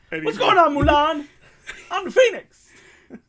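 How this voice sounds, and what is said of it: Imitates another person's voice. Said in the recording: “my totally great Eddie Murphy impression”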